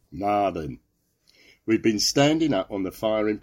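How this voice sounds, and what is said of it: Put-on Lancashire accent. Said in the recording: “I insist on a Lancashire accent for this ... So we can check his Lancashire accent with your Lancashire accent. Go, Lancashire.”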